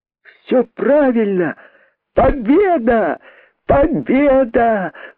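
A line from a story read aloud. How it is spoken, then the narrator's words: Excited shout. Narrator (Russian): крикнул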